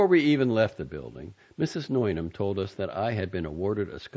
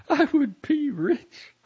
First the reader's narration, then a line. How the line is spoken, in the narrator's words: said, laughing